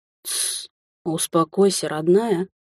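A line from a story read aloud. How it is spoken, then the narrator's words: Tender whisper close to ear. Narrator (Russian): прошептал у самого уха до боли родной голос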